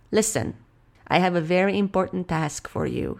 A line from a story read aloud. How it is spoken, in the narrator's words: said the king